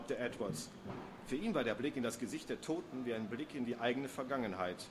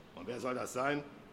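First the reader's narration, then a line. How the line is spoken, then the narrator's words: Growl. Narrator (German): knurrte Kipwell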